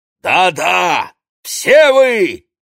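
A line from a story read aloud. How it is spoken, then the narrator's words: Barked. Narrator (Russian): рявкнул пришелец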